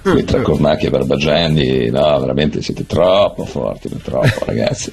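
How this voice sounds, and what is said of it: Strong Milanese accent, just-woke-up voice. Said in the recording (Italian): “Ho preso una voce così perché mi sono appena alzato ... accento milanese così marcato ... è un po' misto”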